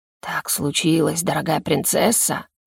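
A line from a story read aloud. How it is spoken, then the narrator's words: Hissing. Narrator (Russian): прошипел Герон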